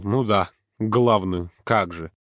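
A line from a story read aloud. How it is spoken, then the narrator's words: Scoffing snort. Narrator (Russian): Юрка хмыкнул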